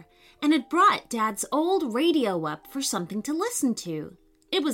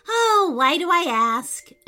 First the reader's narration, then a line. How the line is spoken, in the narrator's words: Amelia sighed